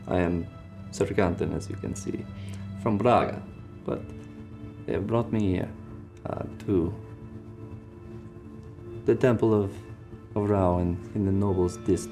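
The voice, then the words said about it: Character voice with mixed-up accent. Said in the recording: “I'm getting my accents mixed up there. I'm doing so many.”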